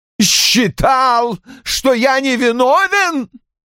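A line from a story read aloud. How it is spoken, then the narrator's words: Roared. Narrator (Russian): взревел Рой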